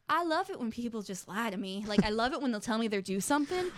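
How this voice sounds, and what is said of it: Put-on Southern belle accent. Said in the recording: “apparently they are a Southern belle. I don't know why you picked that voice... That's the only accent I can do.”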